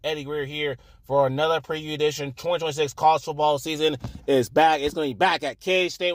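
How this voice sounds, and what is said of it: Hoarse, strained voice. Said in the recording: “I'm already losing my voice already.”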